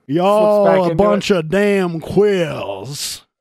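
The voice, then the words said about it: Put-on Southern US accent. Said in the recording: “With the southern accent.”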